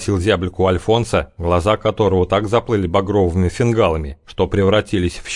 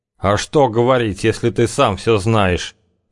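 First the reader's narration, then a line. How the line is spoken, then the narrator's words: Through gritted teeth. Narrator (Russian): процедил Альфонс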